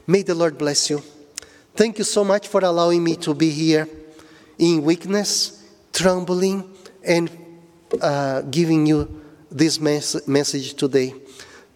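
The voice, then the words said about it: Speaks with a noticeable accent. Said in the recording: “my accent”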